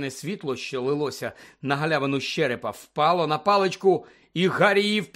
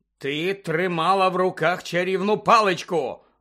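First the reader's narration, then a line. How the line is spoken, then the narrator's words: Barked. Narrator (Ukrainian): гаркнув містер Дігорі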